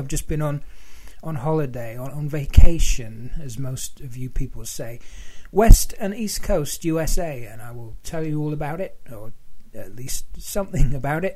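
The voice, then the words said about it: Strained, unwell-sounding voice. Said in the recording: “My voice isn't too great, as you can probably tell. Sat here with a honey drink”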